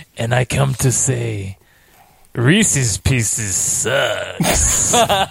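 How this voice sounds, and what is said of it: Creepy put-on voice. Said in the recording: “What is that creepy voice?”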